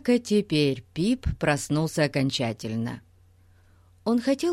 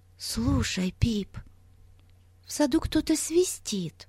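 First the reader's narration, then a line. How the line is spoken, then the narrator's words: Whispering. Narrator (Russian): прошептала Бетси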